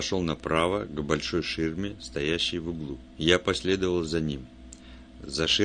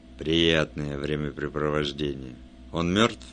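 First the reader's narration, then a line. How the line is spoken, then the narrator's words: Gloomy. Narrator (Russian): Он сказал мрачно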